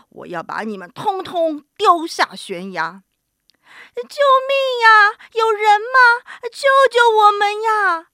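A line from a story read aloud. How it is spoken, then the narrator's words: Wailing, sobbing. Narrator (Chinese): 三个动物嚎啕大哭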